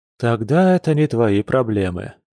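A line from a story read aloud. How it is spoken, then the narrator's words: Relieved sigh. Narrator (Russian): вздохнул Тигр, заметно расслабившись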